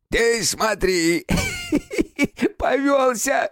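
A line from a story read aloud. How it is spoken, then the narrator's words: Creaky laughing voice. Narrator (Russian): рассмеялся скрипучим голосом комок шерсти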